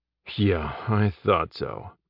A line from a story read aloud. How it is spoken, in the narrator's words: Jeb muttered